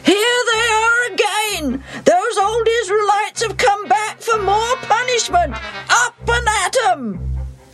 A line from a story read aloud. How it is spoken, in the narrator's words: the king of Ai wakes up, looks out, and yells